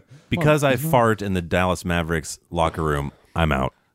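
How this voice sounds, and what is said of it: Imitates another person's voice. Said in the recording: “That's my Mark Cuban impression.”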